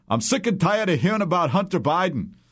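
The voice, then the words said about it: Bernie Sanders impression. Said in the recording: “that's a pretty good Bernie Sanders impression”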